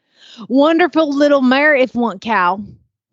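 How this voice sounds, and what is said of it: Attempted Arkansas Southern accent. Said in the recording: “Arkansas kind of has that Oklahoma feel ... a different accent in Arkansas ... Arkansas is like a mix of Louisiana and Oklahoma. I don't know if I'm capable, but I'll give it a try.”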